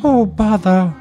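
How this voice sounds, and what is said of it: Winnie the Pooh character voice. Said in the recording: “I'm trying to do any Disney character voice. All I got in my head right now is Pooh.”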